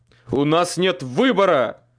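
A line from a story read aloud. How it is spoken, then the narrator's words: Barking snap. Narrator (Russian): рявкнул Майкл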